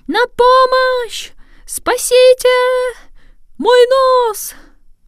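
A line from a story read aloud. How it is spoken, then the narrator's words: Sudden panicked scream. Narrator (Russian): вдруг закричал не своим голосом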